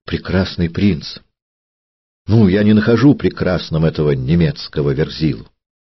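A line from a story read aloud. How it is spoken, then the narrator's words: Ardent exclamation. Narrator (Russian): Астольф пылко воскликнул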